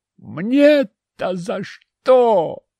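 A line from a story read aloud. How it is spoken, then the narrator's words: Indignant howl. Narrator (Russian): возмущенно взвыл Петр, прячась за конторкой и прикрывая лицо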